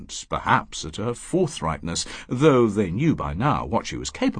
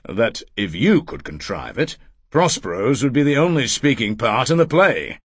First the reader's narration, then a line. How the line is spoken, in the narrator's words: Erasmus said coldly